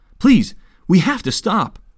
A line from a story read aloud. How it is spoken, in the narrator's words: the boy pleaded